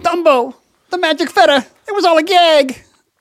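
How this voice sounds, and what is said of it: Imitates a cartoon character's voice. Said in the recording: “That's my impression of the mouth.”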